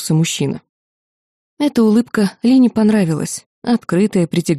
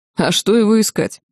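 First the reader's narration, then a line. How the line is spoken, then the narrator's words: Skeptical explanation. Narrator (Russian): Павел скептически хмыкнул и пояснил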